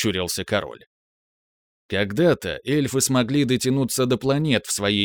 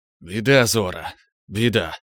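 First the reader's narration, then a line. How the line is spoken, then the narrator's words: Tired exhale. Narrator (Russian): выдохнул магистр темной магии, устало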